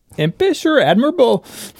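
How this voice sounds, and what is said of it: Bad Belsnickel accent. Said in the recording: “That's a bad accent... That was your Belschnickel?”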